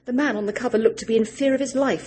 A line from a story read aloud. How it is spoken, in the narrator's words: she said, rattling my keys at the ignition irritably